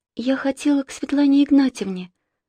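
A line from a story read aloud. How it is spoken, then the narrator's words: Timid speech. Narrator (Russian): робко сказала Саша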